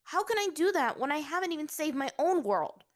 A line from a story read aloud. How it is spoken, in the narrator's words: Aang suddenly yelled out at him